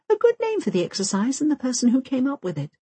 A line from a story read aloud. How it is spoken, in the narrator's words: very, very quietly to herself, over and over again